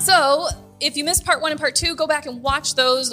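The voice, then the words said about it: Cheesy infomercial announcer voice. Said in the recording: “Your announcer voice was... It sounded like I was watching one of those crappy infomercials at like midnight.”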